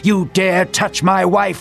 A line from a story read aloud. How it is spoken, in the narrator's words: he yelled